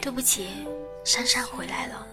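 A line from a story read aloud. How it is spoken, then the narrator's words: Sighing. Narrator (Chinese): 他叹了一口气说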